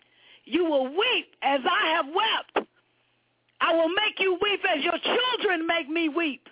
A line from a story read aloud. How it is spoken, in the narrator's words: Out of control, Bonacera shouted hoarsely